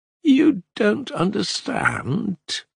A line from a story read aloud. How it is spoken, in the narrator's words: he drawled reproachfully